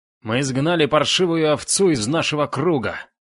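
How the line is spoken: Uncontrolled yell. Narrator (Russian): Не сдержавшись, завопил Шендер

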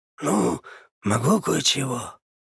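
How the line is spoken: Hoarse rasp, swaggering smile. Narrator (Russian): прохрипел Леха, залихватски улыбнувшись

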